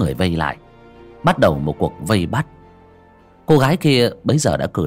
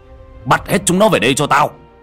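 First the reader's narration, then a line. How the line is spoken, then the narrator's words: Composed shout. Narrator (Vietnamese): ông Khôi lấy lại bình tĩnh hét lên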